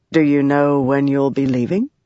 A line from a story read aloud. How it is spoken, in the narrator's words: he said in a suddenly cool voice